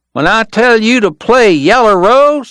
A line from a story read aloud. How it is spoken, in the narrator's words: the kid was yelling